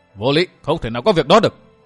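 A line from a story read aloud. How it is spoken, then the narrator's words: Shouting loudly. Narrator (Vietnamese): Độc Cô Thanh Tùng hét to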